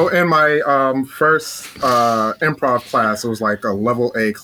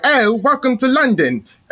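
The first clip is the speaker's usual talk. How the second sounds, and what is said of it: Put-on British accent. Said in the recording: “I'm going to do a British accent because I wanted to try my British accent out. So I do this stupid initiation of a British accent.”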